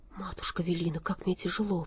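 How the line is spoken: Whisper. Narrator (Russian): прошептал он

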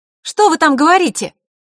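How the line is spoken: Shout. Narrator (Russian): крикнула Идиана

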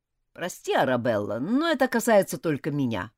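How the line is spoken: Sharp interruption. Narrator (Russian): довольно резко оборвал ее Джулиан

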